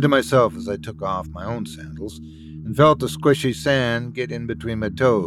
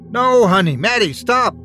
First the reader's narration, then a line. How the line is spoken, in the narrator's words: I yelled